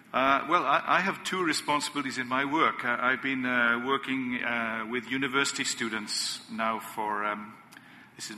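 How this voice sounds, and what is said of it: Welsh accent. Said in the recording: “we could tell from your accent you're not from here, and you're from Wales?”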